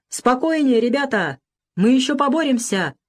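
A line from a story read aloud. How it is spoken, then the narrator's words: Hopeful shout. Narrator (Russian): крикнул Бакрадзе, поверивший в то, что он все же перетянет линию фронта и сумеет посадить самолет на ближайшем аэродроме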